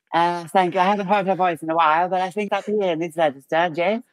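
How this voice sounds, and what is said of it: Arianna Huffington impression. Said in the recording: “This is my Ariana Huffington impression.”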